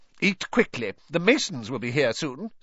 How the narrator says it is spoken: snapped Aunt Petunia

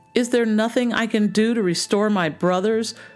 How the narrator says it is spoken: cried the young princess

